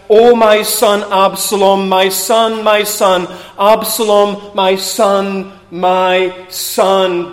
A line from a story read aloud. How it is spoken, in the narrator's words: wept and he cried out